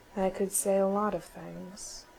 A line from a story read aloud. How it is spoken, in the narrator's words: Tom said quietly